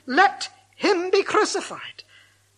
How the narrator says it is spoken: they cried out the more, saying

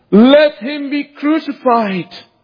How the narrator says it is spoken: they cried

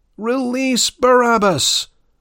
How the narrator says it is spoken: cried the uproarious crowd

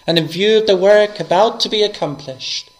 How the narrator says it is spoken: he cried

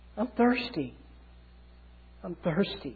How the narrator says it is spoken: he cries out his last words of active obedience

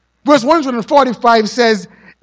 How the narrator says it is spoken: he cried with his whole heart

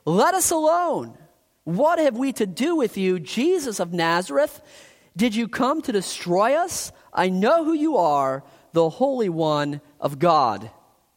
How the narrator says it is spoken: cried out, saying

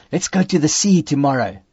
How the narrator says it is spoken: I whispered the words

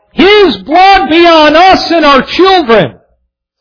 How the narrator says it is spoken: The ones who had yelled

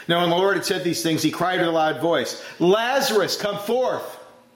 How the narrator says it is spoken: Jesus shouted with a loud voice

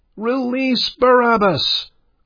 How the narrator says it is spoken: cried the uproarious crowd

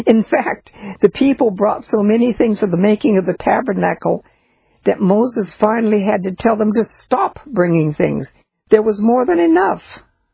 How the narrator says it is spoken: He stops and laughs and then says

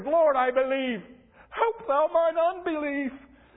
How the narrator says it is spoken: the father of the child cried out and said with tears

